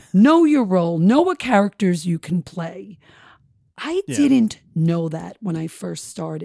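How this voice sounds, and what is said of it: Long Island accent. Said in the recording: “this Long Island accent”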